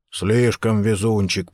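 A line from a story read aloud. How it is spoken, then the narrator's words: Grumble. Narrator (Russian): проворчал Ховард Карнс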